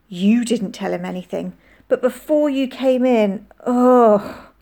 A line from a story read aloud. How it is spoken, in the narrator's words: groaned